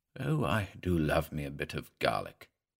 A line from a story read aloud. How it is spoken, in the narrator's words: he muttered